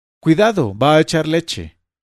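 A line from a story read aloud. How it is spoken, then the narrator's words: Woman shouting. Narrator (Spanish): Una señora gritó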